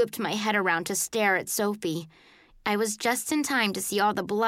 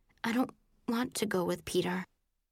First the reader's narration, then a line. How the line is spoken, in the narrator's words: Sophie said, her voice sounding faint